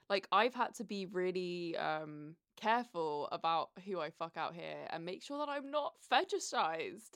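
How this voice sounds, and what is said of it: British accent. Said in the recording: “my accent ... the British accent”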